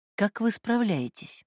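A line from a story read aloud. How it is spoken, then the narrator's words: Soft question. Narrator (Russian): мягко спрашивает Корниенко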